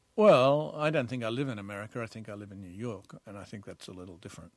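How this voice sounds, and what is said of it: Australian accent. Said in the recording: “Your accent betrays you, Australian-born”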